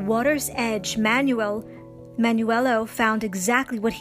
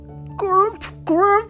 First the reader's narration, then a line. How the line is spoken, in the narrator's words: croaked the frog